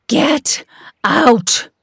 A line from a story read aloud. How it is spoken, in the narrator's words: shouted